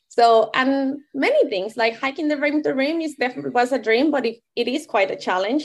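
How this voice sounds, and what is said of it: Non-native English accent. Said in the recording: “I was so aware of my accent ... English is my second language”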